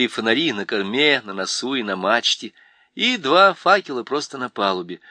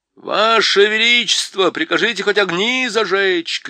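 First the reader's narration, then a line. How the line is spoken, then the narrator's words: Shout. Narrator (Russian): крикнул Дриньян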